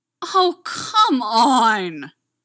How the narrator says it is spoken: Styles groaned

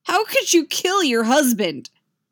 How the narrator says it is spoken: Luke shouts, but it's not really a question

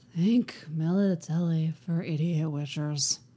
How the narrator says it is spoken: the bard mutters

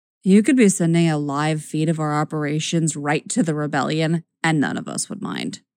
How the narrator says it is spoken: Luce says wearily

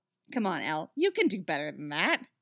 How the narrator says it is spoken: he scoffs

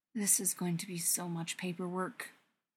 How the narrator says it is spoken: he mutters to himself

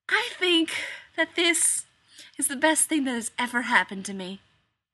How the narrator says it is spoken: Jared said dreamily

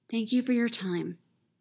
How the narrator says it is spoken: she says

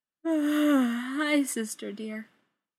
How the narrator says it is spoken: G says through a yawn

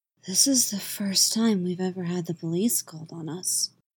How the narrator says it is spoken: Adam whispered in awed tones

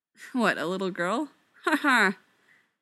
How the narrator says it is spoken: Styles says, with a sour expression

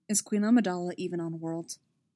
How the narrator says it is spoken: Stas asked quietly

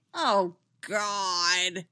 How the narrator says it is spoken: Winona groaned

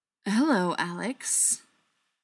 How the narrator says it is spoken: Briar said dryly

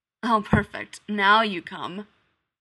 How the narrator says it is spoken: he says, and then grumbles almost to himself

